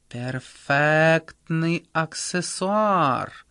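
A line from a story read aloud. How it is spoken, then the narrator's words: Drawling. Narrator (Russian): протянула Анка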